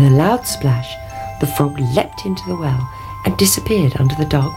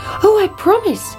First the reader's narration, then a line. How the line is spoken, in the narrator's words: cried the princess